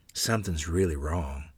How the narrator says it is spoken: said quietly, as if Mother and Father might hear us

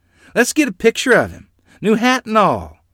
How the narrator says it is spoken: they exclaimed

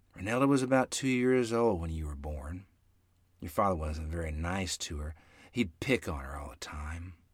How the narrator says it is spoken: Mother sighed softly and replied

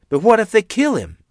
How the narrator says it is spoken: Mother exclaimed dejectedly

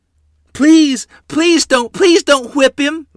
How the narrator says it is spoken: Lottie screamed

